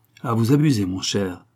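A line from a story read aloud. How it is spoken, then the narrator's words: Violent retort. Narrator (French): répliqua René d'un ton violent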